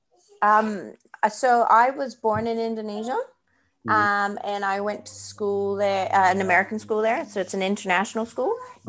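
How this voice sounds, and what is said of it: Mixed German-Indonesian accent. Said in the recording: “your accent is because you have some German background and some Indonesian background”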